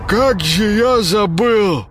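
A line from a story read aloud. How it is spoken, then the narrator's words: Forced out, clearing throat. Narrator (Russian): откашливаясь, выдавил из себя Паша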